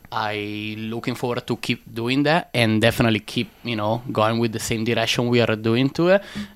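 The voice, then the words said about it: Italian-accented English. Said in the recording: “Where is your accent from? ... Born and raised in Italy. ... North side of Italy”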